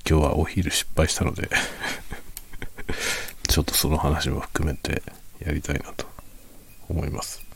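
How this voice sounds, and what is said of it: Quiet, hushed late-night voice. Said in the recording (Japanese): “深夜の小声で雑談コーナー”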